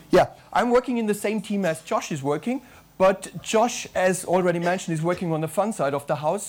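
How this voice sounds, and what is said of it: Strong German accent. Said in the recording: “I work out of Germany, as you can hear from my strong accent.”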